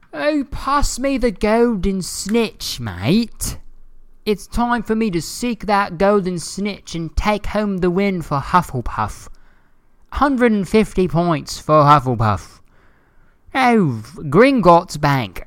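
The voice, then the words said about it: Exaggerated put-on British accent. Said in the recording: “saying shit in like a really like exaggerated British accent”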